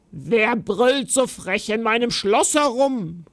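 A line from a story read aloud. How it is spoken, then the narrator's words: Giantess growling. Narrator (German): knurrte die Riesin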